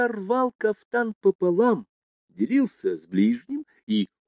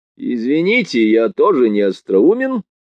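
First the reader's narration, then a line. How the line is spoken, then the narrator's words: Sharp interruption. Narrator (Russian): резко перебил Разумихин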